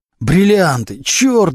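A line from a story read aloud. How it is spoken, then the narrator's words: Howling wail. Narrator (Russian): взвыл Глущенко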